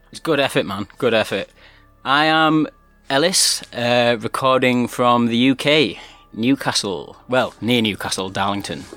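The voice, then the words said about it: English regional accent. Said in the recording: “Listen to that accent. That's beautiful.”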